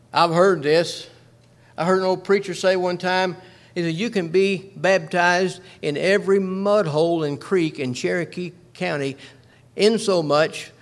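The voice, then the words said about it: North Georgia Southern accent. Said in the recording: “being from North Georgia. I'm sure you can't tell that by my accent.”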